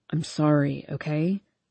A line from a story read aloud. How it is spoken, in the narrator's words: He says quietly